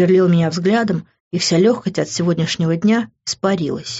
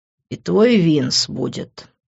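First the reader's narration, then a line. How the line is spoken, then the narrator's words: Said through teeth. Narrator (Russian): процедил Грант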